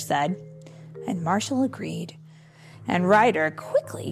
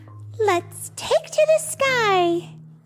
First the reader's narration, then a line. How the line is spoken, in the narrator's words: Skye exclaimed